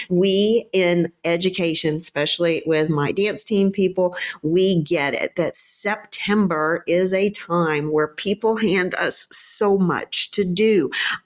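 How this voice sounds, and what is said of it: Southern American drawl. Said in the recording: “with my southern drawl, I could pronounce that a little bit different”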